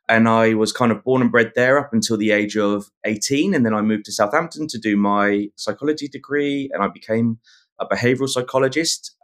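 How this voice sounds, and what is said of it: Southern English accent. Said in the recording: “accent is not so much of a New South Welsh accent ... I'm originally from the UK, a place called Reading, which is down south in between London and Bristol”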